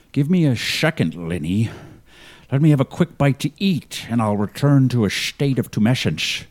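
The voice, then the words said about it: Scottish accent, sometimes slightly Irish. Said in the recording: “I'm a Scottish relic hunter whose accent is sometimes a little bit Irish”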